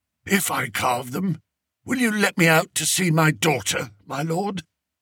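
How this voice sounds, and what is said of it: Hoarse, strained voice. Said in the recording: “in a hoarse voice.”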